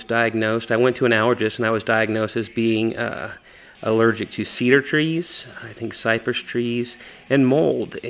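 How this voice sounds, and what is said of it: Congested, sinus-affected voice. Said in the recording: “you can probably hear it in my voice today. Allergies I've been dealing with turned into a sinus infection”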